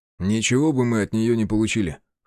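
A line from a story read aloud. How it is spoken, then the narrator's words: Scoffing. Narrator (Russian): хмыкнул Влад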